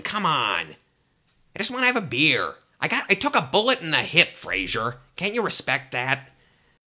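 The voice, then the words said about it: Imitates a sitcom character's voice. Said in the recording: “my impression of Frasier's dad is really good”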